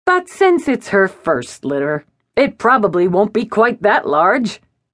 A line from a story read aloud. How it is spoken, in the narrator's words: he added with a jolly laugh